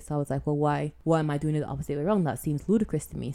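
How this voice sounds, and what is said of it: Mixed Caribbean-British accent. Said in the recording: “weird mixed in-betweeny Caribbean, Cari-British accent”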